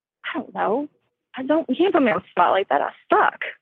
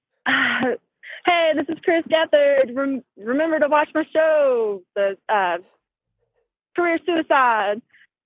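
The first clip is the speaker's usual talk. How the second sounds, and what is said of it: Imitates another person's accent, longer O's. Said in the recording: “do an impression of me ... your O's are different ... a longer O ... a couple sentences in my accent as you perceive it ... I don't think that sounded like me”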